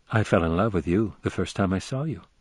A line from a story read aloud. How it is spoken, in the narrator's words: she said quietly